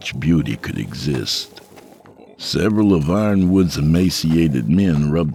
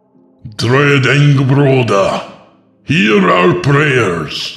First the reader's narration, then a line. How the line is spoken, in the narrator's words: the priest shouted, no longer singing